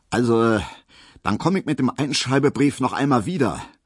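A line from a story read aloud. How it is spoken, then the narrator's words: Loud, solemn, official. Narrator (German): sagte Herr Schulze plötzlich sehr laut, sehr würdig, sehr ernst und sehr dienstlich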